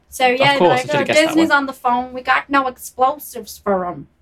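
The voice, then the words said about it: Put-on American accent. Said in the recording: “That's a good American accent.”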